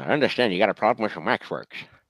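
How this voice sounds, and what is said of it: Columbo impression, fairly good. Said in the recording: “Peter Falk as Columbo ... I can't do his voice. ... That was pretty good.”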